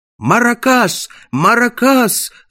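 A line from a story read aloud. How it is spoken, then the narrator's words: Crowd shouting. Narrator (Russian): закричали зрители при появлении чудовища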